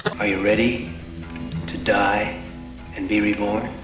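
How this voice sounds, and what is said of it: Creepy voice. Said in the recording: “creepy voice”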